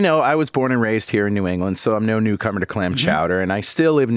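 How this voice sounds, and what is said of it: Usual voice. Nothing is said of it.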